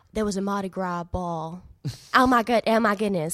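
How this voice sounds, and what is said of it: Put-on Southern American accent. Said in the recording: “Southern? Southern American? ... a Southern accent, because the R's are the same ... to be able to do it as well as you just did it now”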